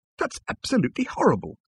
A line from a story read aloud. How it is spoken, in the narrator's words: exclaimed Arthur